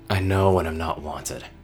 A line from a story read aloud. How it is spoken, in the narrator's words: said, his voice low